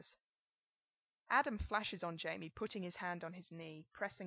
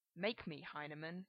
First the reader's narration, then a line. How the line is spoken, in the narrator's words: he growls, a la De Niro, to mask his shock